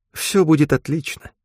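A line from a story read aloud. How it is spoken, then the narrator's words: Gentle, affectionate. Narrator (Russian): ласково произнес Джонс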